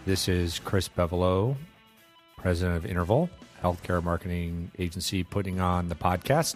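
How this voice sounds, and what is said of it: Gravelly, sore-throated voice from a cold. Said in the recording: “This cold is just kicking my I Wonder if you can tell from my voice, my gravelly, sore throated, cold voice.”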